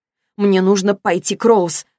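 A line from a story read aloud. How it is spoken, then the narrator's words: Sharp. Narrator (Russian): сказала она резко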